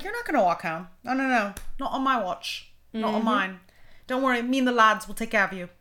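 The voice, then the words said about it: Bad put-on British accent. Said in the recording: “This is the worst British accent in the world. I need to work on it.”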